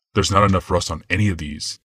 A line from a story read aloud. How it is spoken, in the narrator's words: Yawmoth growled